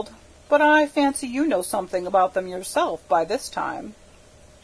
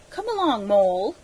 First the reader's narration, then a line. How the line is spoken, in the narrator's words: he said anxiously